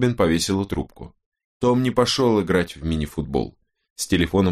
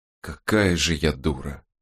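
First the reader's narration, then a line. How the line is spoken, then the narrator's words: Quiet, to herself. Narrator (Russian): тихо сказала Робин, обращаясь к пустой, залитой солнцем комнате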